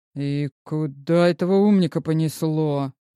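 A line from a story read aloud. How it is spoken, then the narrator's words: Muttering. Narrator (Russian): пробормотал Илья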